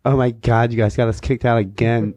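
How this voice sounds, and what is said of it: Imitates another person's voice. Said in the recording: “do that voice”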